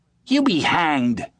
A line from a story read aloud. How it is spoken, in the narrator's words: spat out Ginger